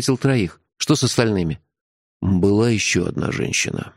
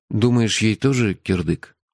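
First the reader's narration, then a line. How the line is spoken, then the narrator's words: Dejected question. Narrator (Russian): упавшим голосом спросил я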